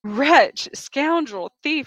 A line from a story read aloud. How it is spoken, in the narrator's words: she cried